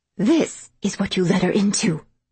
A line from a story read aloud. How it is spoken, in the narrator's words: she finally snapped accusingly